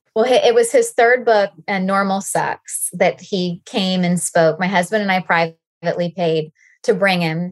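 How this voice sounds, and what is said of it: Southern American accent. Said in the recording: “with your Southern accent, the way that title came out was Normal Sex”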